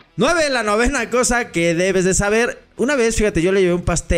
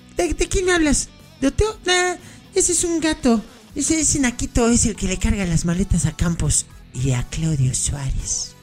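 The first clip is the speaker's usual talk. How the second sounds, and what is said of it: Impression of Cuauhtémoc Blanco. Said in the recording (Spanish): “imitación de Cuau”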